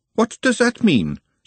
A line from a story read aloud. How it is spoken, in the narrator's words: said Glenda sharply